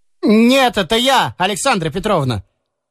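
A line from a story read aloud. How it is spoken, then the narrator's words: Shouting in a fake voice. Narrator (Russian): крикнул он в дверь фальшивым голосом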